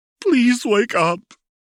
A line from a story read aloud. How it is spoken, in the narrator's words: Jinx pleaded